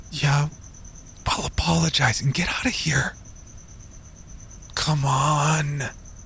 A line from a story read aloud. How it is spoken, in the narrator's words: Jeremy begged